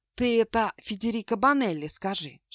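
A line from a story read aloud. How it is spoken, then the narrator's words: Whispered. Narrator (Russian): шепнула Аврора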